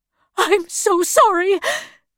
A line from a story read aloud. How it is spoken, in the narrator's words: cried her mother